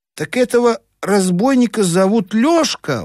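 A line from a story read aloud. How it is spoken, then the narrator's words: Exclaimed. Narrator (Russian): воскликнул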